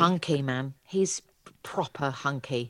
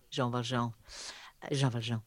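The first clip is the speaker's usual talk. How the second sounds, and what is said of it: Pretentious French accent. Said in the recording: “I did French as well, so that's hence the pretentious accent.”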